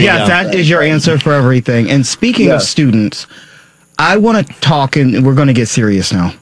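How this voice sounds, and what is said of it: Usual voice. Nothing is said of it.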